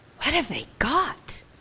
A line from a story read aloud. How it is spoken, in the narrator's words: Alice whispered